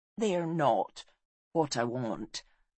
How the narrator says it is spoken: said Gwalchmai sadly

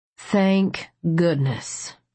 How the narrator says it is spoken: Liam said in a solemn voice

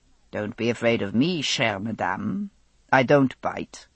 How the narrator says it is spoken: he patted my arm kindly and said

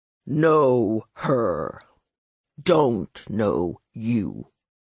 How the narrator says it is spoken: he said slowly

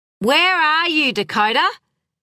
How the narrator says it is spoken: called out her mother this time

